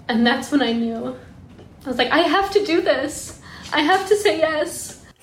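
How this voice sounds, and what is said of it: Emotional, choked-up voice. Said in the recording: “I'm getting emotional now.”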